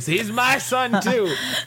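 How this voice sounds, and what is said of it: Drunken deadbeat dad voice. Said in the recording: “in like his most like drunken deadbeat dad voice”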